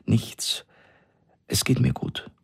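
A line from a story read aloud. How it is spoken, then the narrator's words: Trembling voice. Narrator (German): sagte sie mit zitternder Stimme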